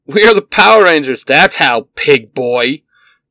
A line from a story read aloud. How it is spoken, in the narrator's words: Pink Ranger shouts